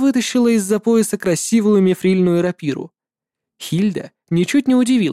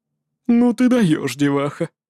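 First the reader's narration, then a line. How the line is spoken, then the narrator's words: Grumbling tone. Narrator (Russian): сказала она ворчливым тоном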